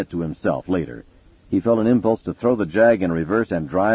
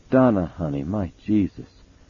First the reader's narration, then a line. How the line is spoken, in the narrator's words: he said softly